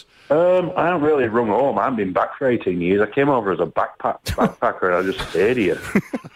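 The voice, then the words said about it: Yorkshire English accent. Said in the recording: “Where's the accent from ... I'm from Yorkshire in England.”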